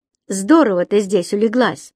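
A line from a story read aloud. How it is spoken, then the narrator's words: Plain. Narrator (Russian): сказал он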